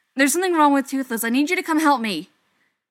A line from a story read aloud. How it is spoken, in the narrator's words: Hiccup blurts